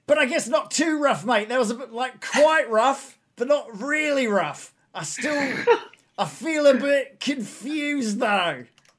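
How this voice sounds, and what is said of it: Put-on Australian accent. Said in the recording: “I like the Australian accent for him. He's good. It suits him.”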